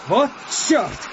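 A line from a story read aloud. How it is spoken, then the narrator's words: Shouting. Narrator (Russian): крикнул Петр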